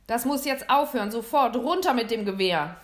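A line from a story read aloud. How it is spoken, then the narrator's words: Call. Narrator (German): rief Mr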